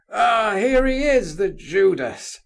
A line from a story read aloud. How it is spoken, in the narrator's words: cried a voice which the prince recognised at once